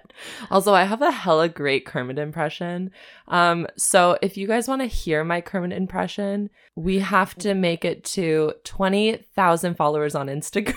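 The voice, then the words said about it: Hoarse, strained, worn-out voice. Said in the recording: “I'm like losing my voice because all we've been doing is going on long-ish road trips and singing for like 3 to 5 hours straight ... pardon my disgusting voice today”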